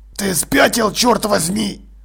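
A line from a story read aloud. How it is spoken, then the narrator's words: Hissed. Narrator (Russian): прошипел он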